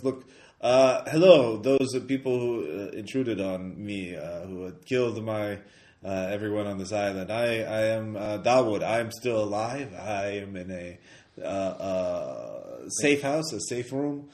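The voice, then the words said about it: Man speaking in a put-on accent. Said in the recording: “another man, accent voice”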